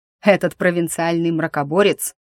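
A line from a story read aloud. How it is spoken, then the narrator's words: Scornful snort. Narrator (Russian): фыркнул герцог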